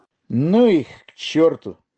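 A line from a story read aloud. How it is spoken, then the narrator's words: Mumbled. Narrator (Russian): второй промямлил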